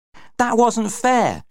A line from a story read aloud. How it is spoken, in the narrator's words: she shouted at Paul